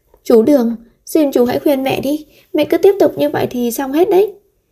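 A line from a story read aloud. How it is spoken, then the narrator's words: Crying, pleading. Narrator (Vietnamese): Lâm Văn Vũ khóc lóc cầu xin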